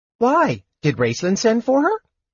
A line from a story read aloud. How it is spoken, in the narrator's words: Tass wondered cheerfully